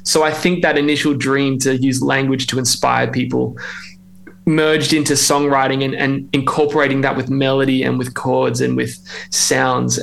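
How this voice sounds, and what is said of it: Australian accent. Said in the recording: “I hope you can tell I'm Australian. I'm trying to keep that accent”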